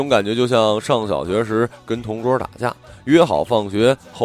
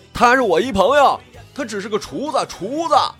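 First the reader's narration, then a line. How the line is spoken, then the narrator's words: Anxious shout. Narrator (Chinese): 我唯恐他犯什么邪呀，朝着那边大喊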